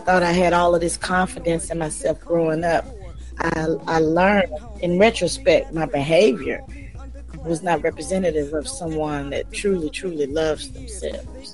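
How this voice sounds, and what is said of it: Hoarse voice that is giving out. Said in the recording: “you probably can hear my voice is going out... you may hear me clearing my throat”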